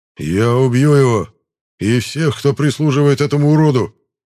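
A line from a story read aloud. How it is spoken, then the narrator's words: Growled. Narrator (Russian): прорычал Драмадор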